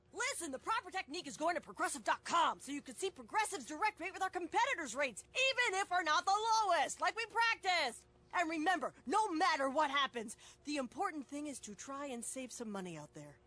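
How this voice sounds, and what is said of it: Coach's rousing pep-talk voice. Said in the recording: “my impression of a coach giving the ultimate pep talk”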